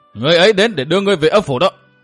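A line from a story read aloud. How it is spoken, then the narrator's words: Furious shout. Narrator (Vietnamese): Phạm Đình vừa bị đại hán nọ tấn công tơi tả, lúc này căm tức quát to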